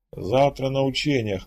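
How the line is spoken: Snorting. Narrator (Russian): хмыкнул командор

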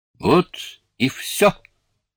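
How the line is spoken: Cheerful. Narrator (Russian): весело сказала она

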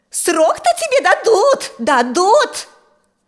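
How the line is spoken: Shrill shriek. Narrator (Russian): взвизгнула та самая родственница

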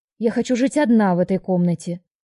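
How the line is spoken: Firm objection. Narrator (Russian): я таким же твердым тоном возразила

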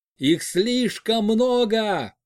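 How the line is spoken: Shouted. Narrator (Russian): крикнул Олег

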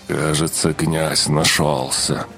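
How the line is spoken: Mutter through clenched teeth. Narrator (Russian): пробурчал сквозь зубы архимаг

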